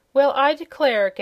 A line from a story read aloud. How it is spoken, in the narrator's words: gasped the sailor man